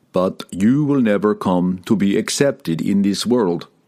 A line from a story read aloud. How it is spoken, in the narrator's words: said Wulfgar